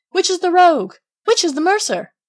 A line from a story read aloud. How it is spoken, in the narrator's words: they cried out as they went